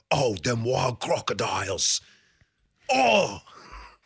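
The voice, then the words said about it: Steve Irwin Australian accent impression. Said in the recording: “Steve Irwin ... The Australian accent's a lot easier than the other ones.”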